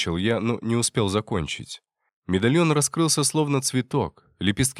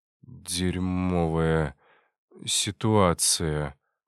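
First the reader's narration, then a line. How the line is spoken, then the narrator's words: Mumbled. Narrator (Russian): пробормотал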